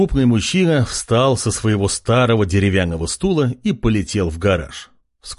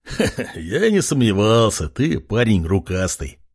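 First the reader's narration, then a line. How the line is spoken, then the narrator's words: Man chuckling. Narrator (Russian): хохотнул мужчина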